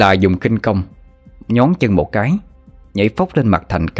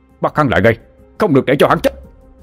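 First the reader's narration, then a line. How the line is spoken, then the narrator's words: Loud shout. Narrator (Vietnamese): A Lý Hải Nhà hét lớn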